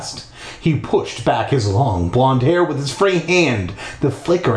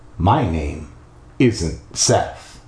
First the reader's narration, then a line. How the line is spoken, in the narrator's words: he said softly, so softly I could barely hear him